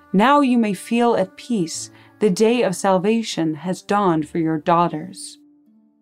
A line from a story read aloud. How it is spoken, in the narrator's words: he merely looked at her calmly and said